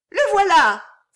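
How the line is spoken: Little girl exclaiming. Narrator (French): s'écria la fillette

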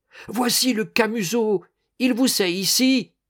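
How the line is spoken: Shouting. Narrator (French): cria-t-elle

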